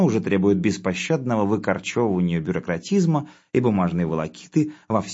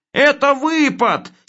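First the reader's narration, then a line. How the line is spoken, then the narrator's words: Immediate joyful shout. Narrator (Russian): сейчас же закричал Хлебоводов радостно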